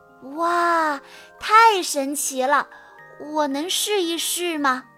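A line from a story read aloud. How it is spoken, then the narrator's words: Amazed exclamation. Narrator (Chinese): 安博惊叹道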